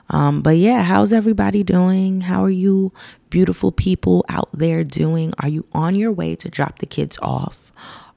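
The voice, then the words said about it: Raspy just-woke-up voice. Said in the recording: “this is my voice when I first wake up. It's kind of raspy”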